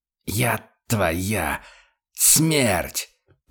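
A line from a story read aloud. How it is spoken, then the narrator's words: Hiss. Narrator (Russian): прошипел Курт Штайгер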